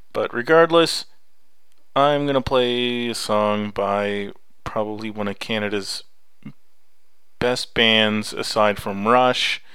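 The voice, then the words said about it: Slight Canadian accent. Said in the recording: “I'm going a little Canadian here, because I am Canadian. You can probably tell a bit of the accent”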